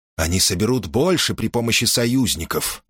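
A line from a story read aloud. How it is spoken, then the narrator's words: Muttered. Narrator (Russian): пробормотал Эсхил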